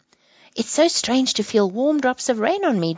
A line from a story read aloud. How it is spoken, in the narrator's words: Jake exclaimed